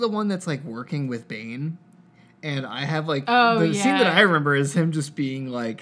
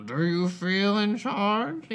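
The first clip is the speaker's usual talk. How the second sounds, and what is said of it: Imitates a movie villain's voice. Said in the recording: “Not my best Bane”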